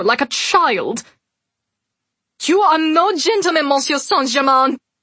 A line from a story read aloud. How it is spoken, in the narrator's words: Celine said loudly